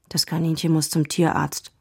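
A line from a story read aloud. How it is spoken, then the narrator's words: Quiet. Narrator (German): sagte Dennis leise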